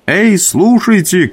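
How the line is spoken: Shouted. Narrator (Russian): крикнул я

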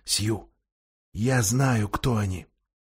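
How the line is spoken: Whisper. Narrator (Russian): Люси … прошептала Сьюзан

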